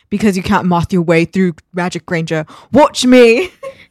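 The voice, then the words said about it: Put-on character accent. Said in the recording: “Your accent just... It's not good... Spot on”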